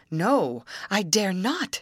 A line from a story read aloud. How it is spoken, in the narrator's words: she cried